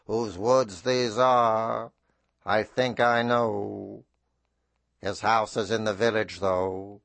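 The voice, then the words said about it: Bad Robert Frost impression. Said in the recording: “my Robert Frost impression ... my wonderful bad impressions”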